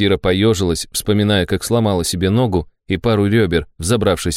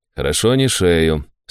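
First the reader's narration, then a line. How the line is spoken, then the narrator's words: Calm, matter-of-fact. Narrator (Russian): спокойно констатировал тогда отец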